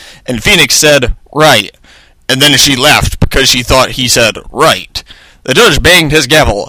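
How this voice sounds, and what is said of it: Usual voice. Nothing is said of it.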